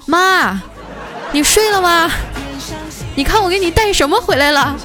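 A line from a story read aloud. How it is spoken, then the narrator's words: Calling upstairs. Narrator (Chinese): 大姐就对着楼上喊了一句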